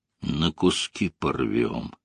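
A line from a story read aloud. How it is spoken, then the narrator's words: Gloomy. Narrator (Russian): мрачно добавил комод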